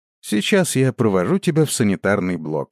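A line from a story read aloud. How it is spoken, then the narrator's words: Sighing, resigned. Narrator (Russian): вздохнув, произнес я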